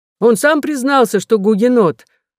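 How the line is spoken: Two culprits shouting together. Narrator (Russian): закричали виновные оба вместе

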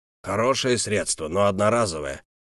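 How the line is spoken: Imperial mage muttering. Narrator (Russian): пробормотал имперский маг

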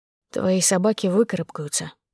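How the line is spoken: Hoarse. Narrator (Russian): сказал сипло

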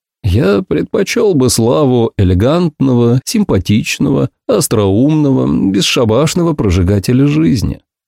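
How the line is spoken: Sad. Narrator (Russian): печально ответил я

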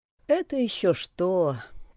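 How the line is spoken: Sighing. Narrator (Russian): вздохнула Тора

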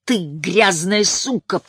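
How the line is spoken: Father growling. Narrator (Russian): прорычал ее отец

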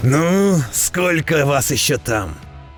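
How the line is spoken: Roaring dwarf. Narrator (Russian): Взревел непробиваемый дворф

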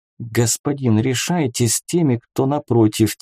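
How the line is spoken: Quiet squeak. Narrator (Russian): тихо пискнула Вика

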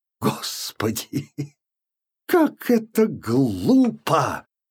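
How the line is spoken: Sudden exclamation, harsh laughter. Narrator (Russian): воскликнула она вдруг с резким хохотом

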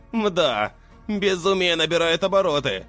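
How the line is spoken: Snorting remark. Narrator (Russian): хмыкнул Мерлин

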